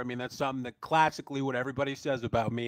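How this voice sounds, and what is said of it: Sarcastic tone. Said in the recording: “You don't have to say it sarcastically.”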